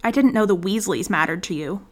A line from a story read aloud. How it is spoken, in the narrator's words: Draco snapped, furious and hurt